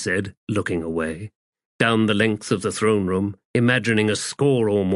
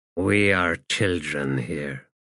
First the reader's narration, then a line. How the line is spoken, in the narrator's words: he muttered